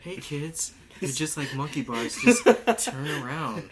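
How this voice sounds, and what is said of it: Imitates another person's voice. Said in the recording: “That was my Jared impression of him.”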